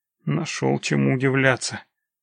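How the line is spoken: Grumbling merchant. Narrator (Russian): буркнул купец

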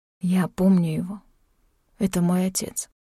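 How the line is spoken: Whisper. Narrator (Russian): прошептал

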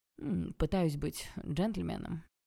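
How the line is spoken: Gloomy reply. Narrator (Russian): хмуро ответил Олег

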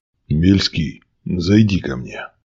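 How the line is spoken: Heavy sigh, boss speaking. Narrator (Russian): тяжко вздохнув, произнес начальник

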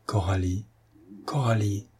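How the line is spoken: Trembling emotional murmur. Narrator (French): murmura Patrice, la voix tremblante d'émotion

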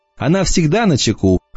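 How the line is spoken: Laughing. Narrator (Russian): засмеялась Эмма

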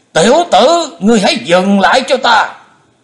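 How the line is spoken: Loud commanding shout. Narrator (Vietnamese): Bệnh túy thần quân ông ta quát to lên

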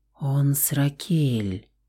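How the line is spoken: Continued whispering. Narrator (Russian): продолжала нашептывать Лаура

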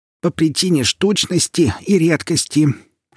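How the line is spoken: Old woman's toothless mumble. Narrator (Russian): шамкала губами старушка

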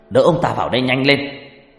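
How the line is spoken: Urgent shout. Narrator (Vietnamese): Ông thầy hét lên

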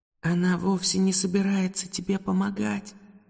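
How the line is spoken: Ghostly whisper in ear. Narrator (Russian): прошептал ей в ухо призрачный голос

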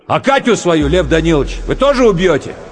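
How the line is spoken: Drunken shout. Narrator (Russian): Пьяный, Романецкий крикнул

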